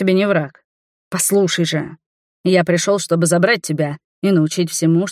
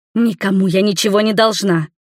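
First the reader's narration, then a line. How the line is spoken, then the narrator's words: Angry snap. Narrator (Russian): огрызнулась злобно, потому что новый крен Магикара швырнул нас к другой стенке, и мужчина вновь оказался сверху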